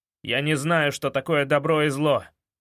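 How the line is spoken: Barked shout. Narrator (Russian): рявкнул

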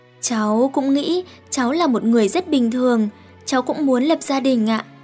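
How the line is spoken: Gentle, smiling. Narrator (Vietnamese): Dương đột nhiên dịu đi, cô mỉm cười hiền hòa

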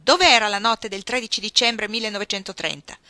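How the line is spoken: Shouting. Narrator (Italian): Il procuratore urlando

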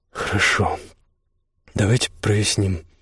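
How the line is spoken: Quiet. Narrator (Russian): тихо сказал он

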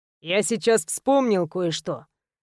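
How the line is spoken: Hoarse voice. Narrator (Russian): проговорил хрипло

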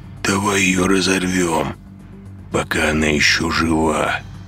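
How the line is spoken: Growling close to ear. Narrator (Russian): зарычал мне на ухо Гидеон

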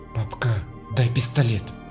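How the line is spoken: Whispered. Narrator (Russian): прошептала Леся

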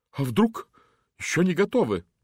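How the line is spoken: Trembling-voiced question. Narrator (Russian): дрогнувшим голосом спросила миссис Оливер

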